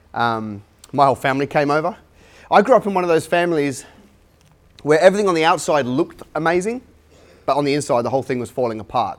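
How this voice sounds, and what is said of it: Mixed English and Australian accent. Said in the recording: “You might be able to tell from my accent. I'm a hybrid. ... So English by birth, but Aussie by choice.”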